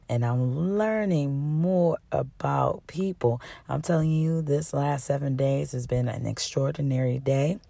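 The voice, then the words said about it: Hoarse voice. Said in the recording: “That's why I'm still hoarse.”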